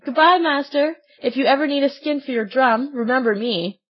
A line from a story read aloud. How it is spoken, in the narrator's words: Swimming away as fast as he could, he cried out, laughing